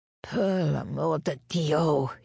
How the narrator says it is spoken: groaned

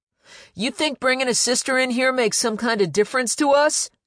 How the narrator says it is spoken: she barked

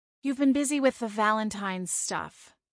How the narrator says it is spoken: she replied, her tone still sour

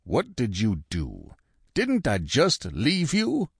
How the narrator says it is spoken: A familiar voice rumbled in my ear

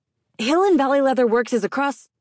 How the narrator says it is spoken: loudly saying

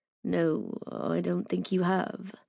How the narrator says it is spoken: said softly

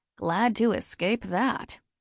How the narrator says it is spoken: said dryly

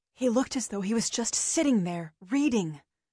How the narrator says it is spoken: I whispered

